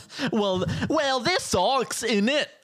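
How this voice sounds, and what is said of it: Poor attempt at British accent. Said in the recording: “I can't do a British accent ... That's what people from Wales sound like”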